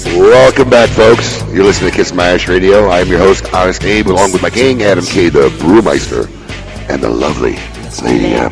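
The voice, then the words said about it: Announcer-style radio voice. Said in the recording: “Oh, that's a radio voice right there.”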